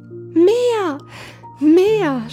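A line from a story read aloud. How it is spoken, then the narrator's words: Screaming. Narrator (German): schrie Hävelmann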